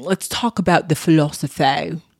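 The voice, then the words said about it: Odd put-on accent. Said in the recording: “I don't know what accent that was ... what the hell was that?”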